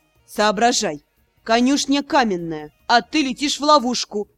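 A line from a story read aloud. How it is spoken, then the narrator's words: Growl. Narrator (Russian): рыкнул Рос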